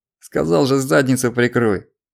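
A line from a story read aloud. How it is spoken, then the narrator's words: Barked. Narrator (Russian): рявкнул Гарик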